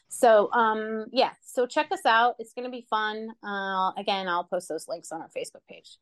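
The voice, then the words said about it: Talking very fast. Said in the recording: “I'm talking really fast.”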